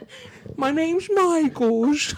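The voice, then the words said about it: Childlike baby voice. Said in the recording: “baby voice”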